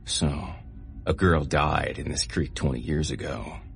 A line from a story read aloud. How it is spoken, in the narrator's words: Joey said in his best scary voice